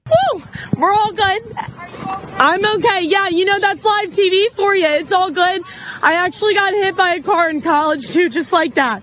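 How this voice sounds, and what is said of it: Adrenaline-charged, shaken excited voice. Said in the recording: “That's the adrenaline. She's not okay. You can hear the adrenaline in her voice.”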